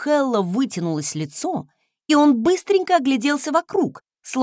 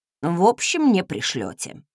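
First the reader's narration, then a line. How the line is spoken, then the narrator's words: Grumbled. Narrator (Russian): буркнул он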